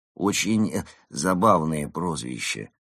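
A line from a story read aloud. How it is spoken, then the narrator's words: Flat, colorless voice. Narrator (Russian): бесцветным голосом сказал Марио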